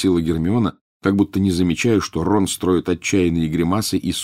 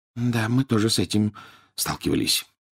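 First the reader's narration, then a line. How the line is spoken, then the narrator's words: Barely audible whisper. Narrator (Russian): еле слышно прошептал Рон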